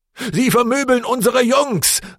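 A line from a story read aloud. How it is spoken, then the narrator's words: Called out, northern accent. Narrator (German): rief mit einem nördlichen Akzent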